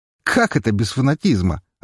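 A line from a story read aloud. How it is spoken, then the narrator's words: Laughing. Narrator (Russian): рассмеялся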